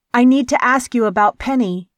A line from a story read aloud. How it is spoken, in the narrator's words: she called out